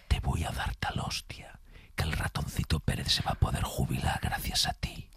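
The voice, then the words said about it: Menacing whisper. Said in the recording (Spanish): “susurrada ... que es en susurro. Que da mucho más miedo cuando te lo dices susurrado.”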